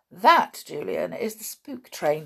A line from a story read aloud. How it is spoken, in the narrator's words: said George with a laugh